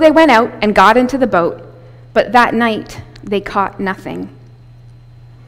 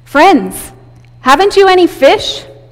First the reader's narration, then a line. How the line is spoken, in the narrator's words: He called out to them